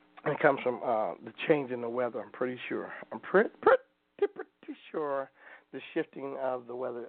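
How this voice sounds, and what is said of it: Chafed, strained voice. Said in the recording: “My voice is kind of chafing. I felt it doing that on stage last night.”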